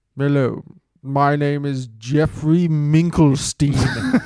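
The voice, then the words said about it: Posh college professor voice. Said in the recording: “your college professor voice ... what accent you'd go with. That's good. ... It's kind of posh.”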